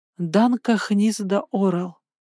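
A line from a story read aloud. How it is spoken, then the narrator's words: Hoarse echoing whisper. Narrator (Russian): хрипло прошептала я, и это имя эхом отозвалось в тишине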